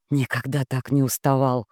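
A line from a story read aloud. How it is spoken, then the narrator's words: Hoarse, rattling voice. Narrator (Russian): проговорил Рома и не узнал своего хриплого, дребезжащего голоса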